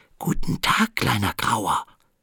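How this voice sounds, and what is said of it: Whispering. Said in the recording (German): “flüsterte”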